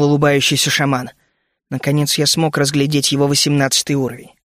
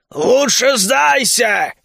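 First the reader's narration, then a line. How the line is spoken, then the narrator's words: Shouted. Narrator (Russian): крикнул шаман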